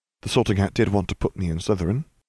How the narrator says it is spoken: Harry murmured

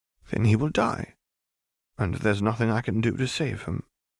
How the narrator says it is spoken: Cassiopeia replied almost sadly

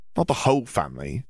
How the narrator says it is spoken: Ginny said

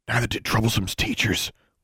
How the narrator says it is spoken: whispered Larry, just low enough that the custodian didn't hear him

